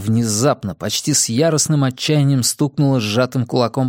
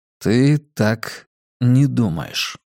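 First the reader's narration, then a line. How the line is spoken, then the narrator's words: Slow questioning. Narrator (Russian): медленно переспросил я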